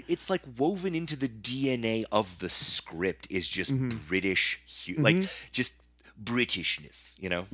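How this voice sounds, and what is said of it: Bad put-on British accent, nasal. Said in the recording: “That was the worst British accent I've ever done. I tried to push the air through my nose and it's not going through and it just came out this weird”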